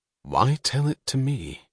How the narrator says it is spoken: Her voice trailed off

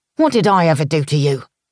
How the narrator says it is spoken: The snarling voice belonged to Tommy Allen, the packer

